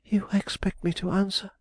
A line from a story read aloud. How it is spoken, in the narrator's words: she exclaimed